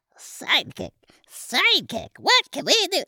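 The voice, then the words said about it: Little elf voice. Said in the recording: “ask it in a little elf voice”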